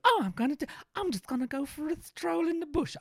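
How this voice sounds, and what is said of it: Put-on English accent. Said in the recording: “I don't know why yours is now suddenly English”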